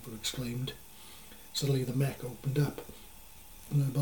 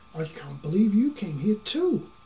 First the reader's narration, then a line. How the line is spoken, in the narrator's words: Zeepa exclaimed in confusion